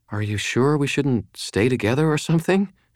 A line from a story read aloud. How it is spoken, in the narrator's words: she asked anxiously